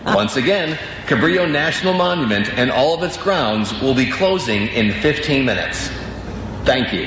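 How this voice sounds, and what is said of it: Perfect announcer voice. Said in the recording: “you have that, like, that, you know, perfect announcer voice”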